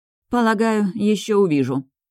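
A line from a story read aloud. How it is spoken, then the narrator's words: Gloomy, resigned reply. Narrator (Russian): отвечаю мрачно, понимая, что этот бой мне не выиграть и придется отступить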